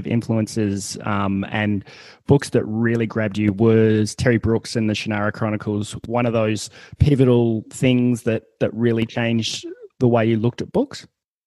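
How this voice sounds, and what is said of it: Australian accent. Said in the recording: “my silly Australian series accent”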